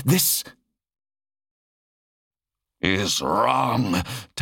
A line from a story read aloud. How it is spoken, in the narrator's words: Talos growled